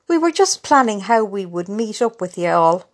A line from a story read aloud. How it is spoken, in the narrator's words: laughed Susan's mam